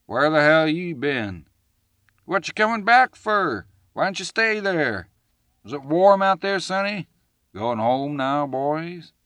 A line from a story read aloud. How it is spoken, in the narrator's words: one shouted in taunting mimicry